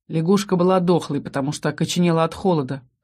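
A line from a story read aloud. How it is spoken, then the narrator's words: Wry snort. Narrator (Russian): хмыкнул Ас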